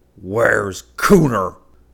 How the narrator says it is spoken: he growled

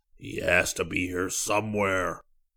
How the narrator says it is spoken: the scientist bellowed

